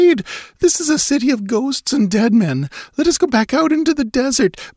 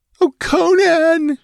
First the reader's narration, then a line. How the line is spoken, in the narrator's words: She wailed